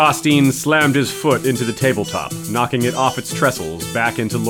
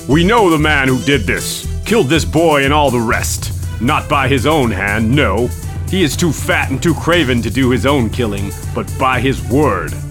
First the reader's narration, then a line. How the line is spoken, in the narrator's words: boomed Hosteen Frey